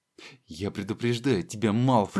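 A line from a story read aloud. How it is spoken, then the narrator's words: Growled. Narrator (Russian): прорычал он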